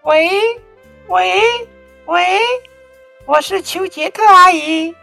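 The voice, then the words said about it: Pinched-nose fake female voice. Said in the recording (Chinese): “他会捏着鼻子假装女生的声音说”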